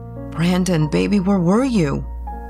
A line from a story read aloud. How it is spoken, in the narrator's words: Anna gasped